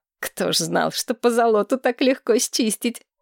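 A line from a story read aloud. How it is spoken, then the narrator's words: Forced out while laughing. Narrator (Russian): Захохотав, Маргарет выдавила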